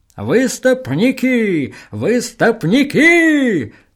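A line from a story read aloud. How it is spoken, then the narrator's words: Joyful crowd chanting. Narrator (Russian): радостно подхватила толпа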